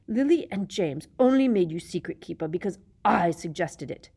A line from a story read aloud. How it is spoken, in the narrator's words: Black hissed, so venomously